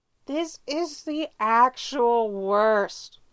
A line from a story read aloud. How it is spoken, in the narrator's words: Styles moans